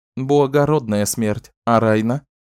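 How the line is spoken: Forced calm reply. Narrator (Russian): Только усилием воли Бердине удалось ответить спокойно

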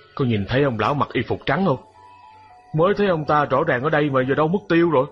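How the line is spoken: Muttering to himself. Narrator (Vietnamese): chú tự lẩm bẩm một mình

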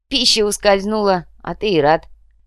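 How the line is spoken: Short guffaw. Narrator (Russian): Коротко хохотнул Эрик Робене, третий гость древней бензоколонки

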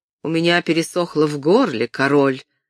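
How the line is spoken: Exclaiming. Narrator (Russian): воскликнул он

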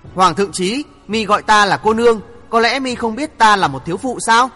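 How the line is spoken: Young woman, cold laugh. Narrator (Vietnamese): Thiếu nữ bịt mặt cười lạnh lùng nói

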